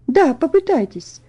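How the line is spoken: Gentle repetition. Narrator (Russian): ласково повторила Мэри

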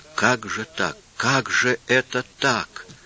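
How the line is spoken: Barely spoken through sobs. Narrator (Russian): Иисус еле выговорил сквозь рыдание

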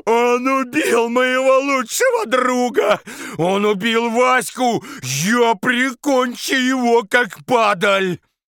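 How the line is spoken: Sobbing. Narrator (Russian): рыдал он самыми настоящими слезами

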